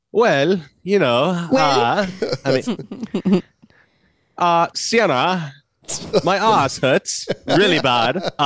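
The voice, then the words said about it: Attempted British accent, sounding Australian. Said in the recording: “can you do your best British accent? ... That was a little Australian, maybe.”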